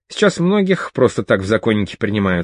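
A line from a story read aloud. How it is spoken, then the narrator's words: Plain. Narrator (Russian): сказал он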